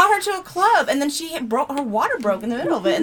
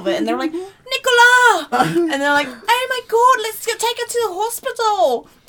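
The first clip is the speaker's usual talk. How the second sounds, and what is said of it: Put-on British accent, emotional. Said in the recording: “That's just British accent. ... No, usually I'm pretty good, but I just wanted to... You know, put the emotion in”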